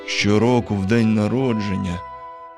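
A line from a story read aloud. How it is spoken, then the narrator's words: Sad mutter. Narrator (Ukrainian): сумно пробурмотів він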